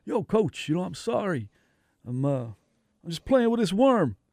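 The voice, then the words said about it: Thick New York accent. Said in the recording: “with a New York accent, you know, thick New York.”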